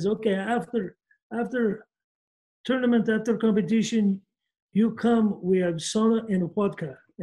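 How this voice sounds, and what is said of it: Impression of a foreign coach. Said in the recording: “great impression ... You could do movies. Kind of, you could do cartoons.”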